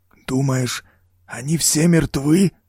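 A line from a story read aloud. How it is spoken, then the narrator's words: Forced out hesitantly. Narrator (Russian): наконец выдавил Лэнгли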